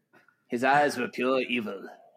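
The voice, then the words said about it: Imitates a movie character's voice. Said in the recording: “my Loomis impression”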